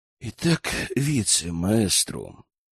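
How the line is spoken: Quiet speech. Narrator (Russian): негромко заговорил

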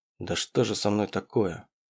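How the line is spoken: Muttered. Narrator (Russian): Пробормотал я

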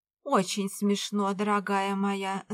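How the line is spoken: Grumbling. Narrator (Russian): заворчала Пэм

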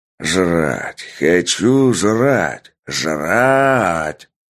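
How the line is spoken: Nasty sneering shout. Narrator (Russian): кричал Сергей противным голосом с мерзкой ухмылкой на лице

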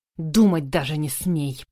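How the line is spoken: Hissed. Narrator (Russian): прошипел он

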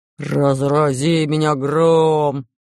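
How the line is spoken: Menacing pirate bark. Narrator (Russian): грозно рявкнул пират Буль-Буль

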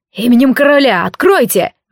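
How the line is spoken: Shouted command. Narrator (Russian): выкрикнула ищейка

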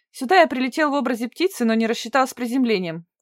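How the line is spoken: Short chuckle. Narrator (Russian): он хохотнул

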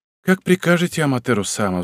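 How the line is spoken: Sigh. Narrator (Russian): вздохнул он

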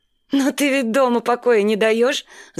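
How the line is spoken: Laughing. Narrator (Russian): засмеялась Карина

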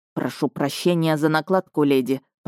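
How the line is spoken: Muttered. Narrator (Russian): пробормотал маг

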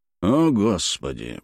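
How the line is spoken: Contemptuous mutter. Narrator (Russian): пробормотал Джей Беркли Крамер с презрительной гримасой

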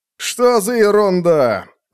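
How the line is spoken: Irritated curt remark. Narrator (Russian): раздраженно бросил тип с унылым лицом, отзывающийся на имечко Горлопан

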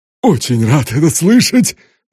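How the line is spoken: Cheerful triumphant exclamation. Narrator (Russian): воскликнул Стива веселым победителем

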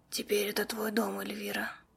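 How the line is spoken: Hoarse female whisper. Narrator (Russian): сипло прошептала женщина

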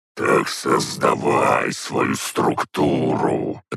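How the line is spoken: Raging growl. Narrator (Russian): рычал и бесновался Бельзияр

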